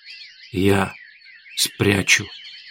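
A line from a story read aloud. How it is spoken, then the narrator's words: Hoarse coughing speech. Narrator (Russian): хрипло прокашлял оборотень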